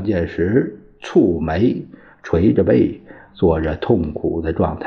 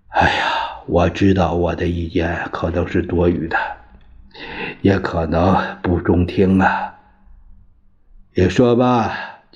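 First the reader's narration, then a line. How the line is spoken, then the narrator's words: Sighing. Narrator (Chinese): 冯玉祥叹了口气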